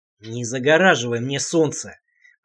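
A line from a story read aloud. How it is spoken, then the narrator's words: Growled. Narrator (Russian): прорычал я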